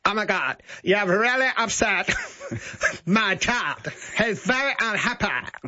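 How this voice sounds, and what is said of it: Put-on Eastern Suburbs accent. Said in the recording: “she did the Eastern Suburbs accent, which goes something like this.”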